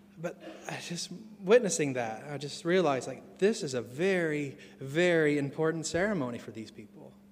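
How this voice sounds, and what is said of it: Non-local foreign accent. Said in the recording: “I'm witnessing this as an outsider, hence the accent, if you haven't noticed”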